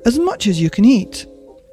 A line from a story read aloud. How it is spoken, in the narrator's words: I cried